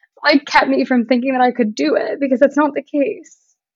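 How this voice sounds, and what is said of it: Emotional, tearful voice. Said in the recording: “why am I getting emotional?”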